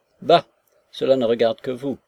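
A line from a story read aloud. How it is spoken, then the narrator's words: Curt, sharp. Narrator (French): répliqua Nekhludov d'un ton sec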